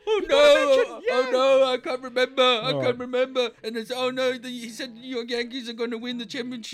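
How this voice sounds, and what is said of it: Good Joe Biden impression. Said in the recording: “That's a very good Biden impersonation.”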